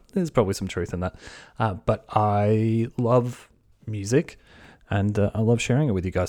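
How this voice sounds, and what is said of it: Australian accent. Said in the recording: “an Australian band for the new listeners in the UK and US. That's where I'm from. The accent probably gives it away.”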